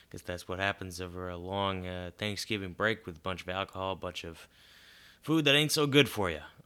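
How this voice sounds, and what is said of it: Congested voice from a cold. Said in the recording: “We got a pretty bad cold... I don't know that I'm going to be able to talk for much longer without losing my voice.”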